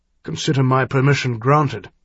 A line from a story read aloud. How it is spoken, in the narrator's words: Harald said grimly